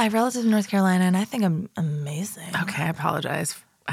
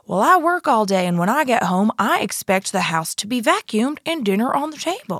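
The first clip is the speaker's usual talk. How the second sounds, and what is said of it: Bad put-on North Carolina accent. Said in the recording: “if you're from North Carolina, we are doing a terrible example of that accent”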